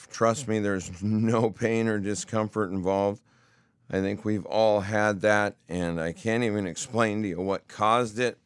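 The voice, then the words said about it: Hoarse, rough-sounding voice. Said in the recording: “I've got a little bit of a hoarse, rash kind of throat. Sounds a little rough. ... my throat, it sounds funny. ... if you hear the difference in the voice”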